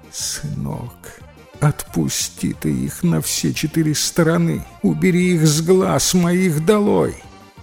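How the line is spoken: Frightened strained whisper. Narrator (Russian): У перепуганного мусы голос пропал, но он выдавил из себя шепотом

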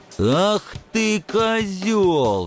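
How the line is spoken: Roar. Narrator (Russian): взревел парень

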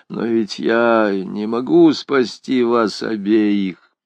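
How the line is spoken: Tearful mutter. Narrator (Russian): влажными от слез глазами, бормоча

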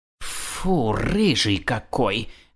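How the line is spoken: Loud hiss. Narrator (Russian): громко прошипела кошка, рассчитывая, что кот ее услышит

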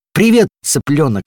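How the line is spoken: Exclaimed. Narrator (Russian): воскликнул

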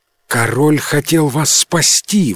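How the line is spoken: Exclaim. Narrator (Russian): воскликнул Луи

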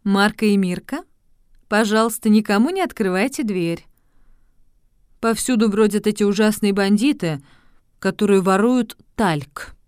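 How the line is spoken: Said gently. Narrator (Russian): ласково сказали детям

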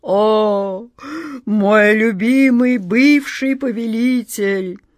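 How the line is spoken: Deep heavy sigh. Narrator (Russian): Джин вздохнул столь глубоко

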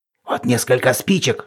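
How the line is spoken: Whispering. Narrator (Russian): шептали они

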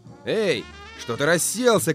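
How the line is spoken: Shouting. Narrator (Russian): кричал хозяин Джону

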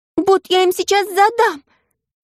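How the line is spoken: Shout. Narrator (Russian): закричала Маша

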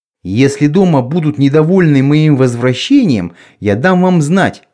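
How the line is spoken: Plain. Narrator (Russian): сказал я

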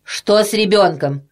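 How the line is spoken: Stern. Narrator (Russian): сказала она строгим голосом

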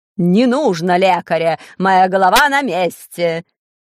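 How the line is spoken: Shouting. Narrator (Russian): закричал король

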